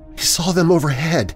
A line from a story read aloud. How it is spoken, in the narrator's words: whispered